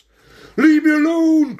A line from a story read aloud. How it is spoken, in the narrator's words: cried the ringmaster